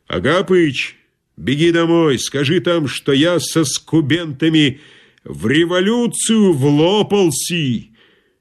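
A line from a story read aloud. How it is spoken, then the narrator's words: Loud bark. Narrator (Russian): Изо всех сил рявкнул Громов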